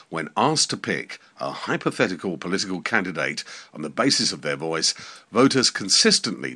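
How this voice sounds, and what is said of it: Deliberately much deeper voice. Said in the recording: “if I'm talking in a much deeper voice today”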